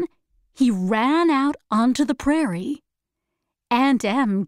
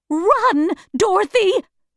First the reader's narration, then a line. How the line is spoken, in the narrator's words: shouted